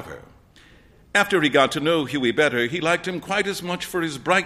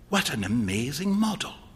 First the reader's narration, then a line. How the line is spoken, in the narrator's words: whispered Hughie